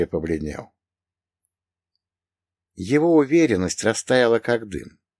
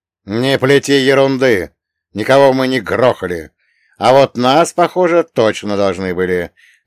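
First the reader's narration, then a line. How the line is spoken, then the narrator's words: Angry bark. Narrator (Russian): рявкнул я на сеньора Сальваторе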